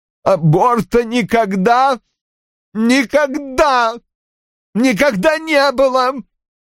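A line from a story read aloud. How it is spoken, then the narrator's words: Choked, sobbing voice. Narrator (Russian): выдавил Рой, глотая слезы и всхлипывая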